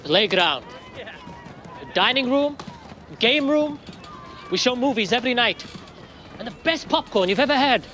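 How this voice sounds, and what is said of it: Indian accent. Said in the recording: “You have a funny accent ... Bombay, India”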